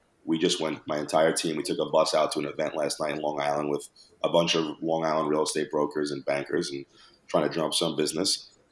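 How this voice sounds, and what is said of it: Raspy voice. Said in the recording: “why my voice is raspy right now”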